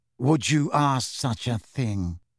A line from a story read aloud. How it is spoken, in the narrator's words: said Snape slowly